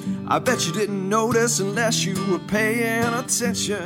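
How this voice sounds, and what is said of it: Singing in falsetto. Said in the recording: “Ooh, that's falsetto.”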